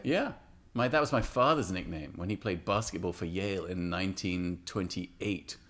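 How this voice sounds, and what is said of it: English accent. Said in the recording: “you were born in the UK, right? ... London, right? ... That's how I got the accent.”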